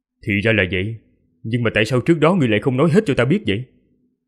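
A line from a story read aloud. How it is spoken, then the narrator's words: Sharp, irritated question. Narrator (Vietnamese): Liễu Minh lấy gắt giọng hỏi lại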